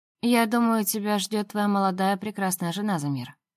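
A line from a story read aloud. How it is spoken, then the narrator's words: Tired speech. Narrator (Russian): устало говорю я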